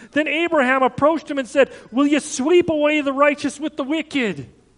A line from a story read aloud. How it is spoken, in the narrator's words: Abraham is pleading with God